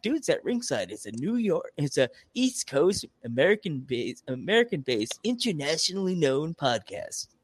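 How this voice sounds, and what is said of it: Radio announcer voice. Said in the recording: “My radio voice.”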